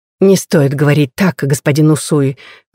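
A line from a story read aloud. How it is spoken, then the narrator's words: Gentle scolding. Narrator (Russian): мягко журит его госпожа Мийо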